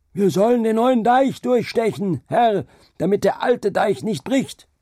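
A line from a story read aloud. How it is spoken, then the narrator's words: Shouted back. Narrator (German): der Mensch schrie dagegen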